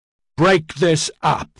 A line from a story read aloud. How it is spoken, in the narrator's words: Ediard roared